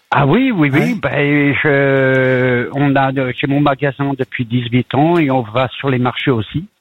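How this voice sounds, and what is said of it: French with slight Yorkshire accent. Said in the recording (French): “vous avez un peu l'accent. Vous avez un petit accent, drôle, hein? ... Il y a une pointe d'accent du Yorkshire dans votre voix, c'est drôle.”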